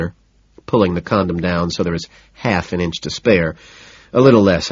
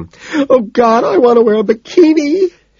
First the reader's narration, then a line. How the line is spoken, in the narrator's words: she wails